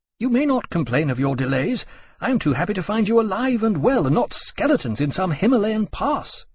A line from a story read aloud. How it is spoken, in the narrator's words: Riley said, shaking his hand eagerly in welcome